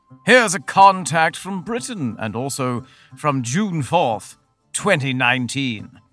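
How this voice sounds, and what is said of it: Put-on British accent. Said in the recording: “Courtesy of the internet, here's a contact from Britain. Oh, sorry, I should do an accent.”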